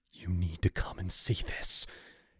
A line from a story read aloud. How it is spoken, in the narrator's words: he gasped, fear twisting his face